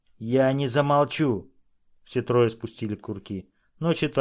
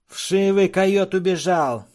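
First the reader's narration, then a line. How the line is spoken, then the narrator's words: Shout. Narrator (Russian): крикнул Шонка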